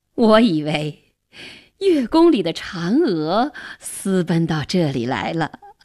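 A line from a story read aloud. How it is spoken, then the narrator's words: Laughing. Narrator (Chinese): 元帝……笑着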